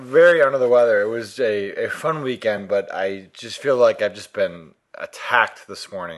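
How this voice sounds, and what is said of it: Hoarse, tired voice. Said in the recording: “Little hoarse. ... You're feeling a little under the weather ... I just feel a little out of it, really tired.”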